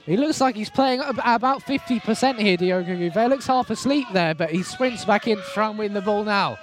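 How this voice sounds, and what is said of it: Hoarse, strained commentator voice. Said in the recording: “Losing my voice here. ... You're getting excited ... a cough. Clear the frog out the throat. ... a game worthy of losing your voice”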